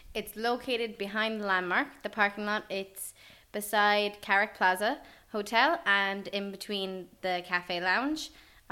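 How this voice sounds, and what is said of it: American accent. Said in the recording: “by the accent and by the word parking lot, you've kind of identified yourself ... as American. ... Definitely American.”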